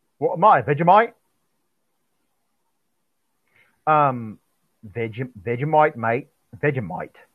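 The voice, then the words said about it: Attempted Australian accent. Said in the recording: “I don't know how to do an Australian accent really well.”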